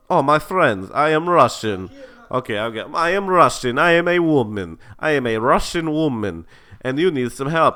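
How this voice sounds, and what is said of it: Put-on Russian accent. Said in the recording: “Russian accent... Hear a nice Russian accent”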